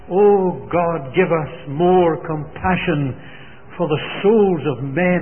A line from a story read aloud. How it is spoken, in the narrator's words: he cried out to God